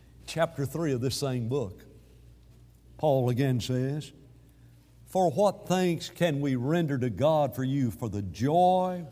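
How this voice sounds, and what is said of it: Southern American accent. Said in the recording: “those of us who talk with a southern accent”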